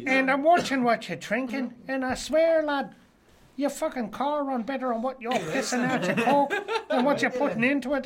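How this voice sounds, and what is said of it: Poor put-on Irish accent. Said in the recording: “we're shit at Irish accent”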